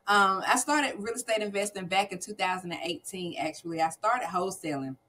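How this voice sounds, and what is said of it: Southern US twang. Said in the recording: “North Carolina... this little southern twang I got”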